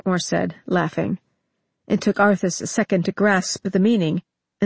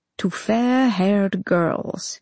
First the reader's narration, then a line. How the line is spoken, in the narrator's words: he said, in a purring voice